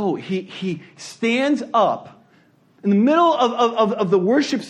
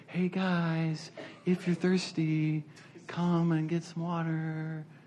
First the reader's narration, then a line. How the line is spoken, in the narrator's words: he doesn't just like calmly say